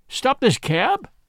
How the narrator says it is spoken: he cried

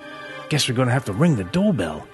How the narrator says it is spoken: Ian muttered

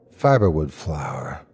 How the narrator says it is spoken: I said softly

